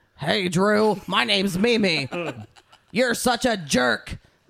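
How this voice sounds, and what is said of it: Imitates a sitcom character's voice. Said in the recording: “how to do a Mimi impression”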